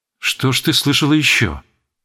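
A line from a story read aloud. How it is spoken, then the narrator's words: Startled, quiet question. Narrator (Russian): Беатрича вздрогнула, спросила тихо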